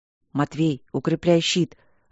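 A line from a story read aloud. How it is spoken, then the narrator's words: Silent mouthed whisper. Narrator (Russian): одними губами шепнул Поляна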